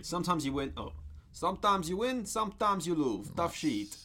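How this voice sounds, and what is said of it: Put-on Russian accent. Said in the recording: “You're doing a Russian accent. ... Yeah, just in a foreign, insert foreign accent.”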